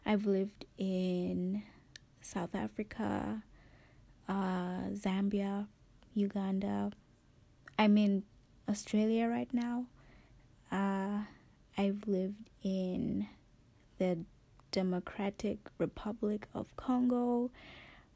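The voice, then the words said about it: Mixed hybrid accent. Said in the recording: “accents from a whole bunch of places ... this weird hybrid accent of mine”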